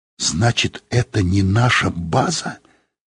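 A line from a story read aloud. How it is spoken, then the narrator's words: Whisper. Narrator (Russian): сказала она шепотом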